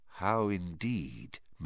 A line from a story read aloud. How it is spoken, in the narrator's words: muttered Dumbledore